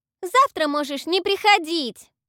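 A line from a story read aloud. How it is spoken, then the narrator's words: Shouting. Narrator (Russian): Крикнула Тото напоследок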